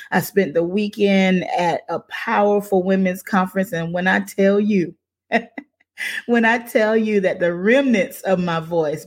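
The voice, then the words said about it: Slightly hoarse voice. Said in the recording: “If you're worried about my voice, yes, I'm a little bit hoarse.”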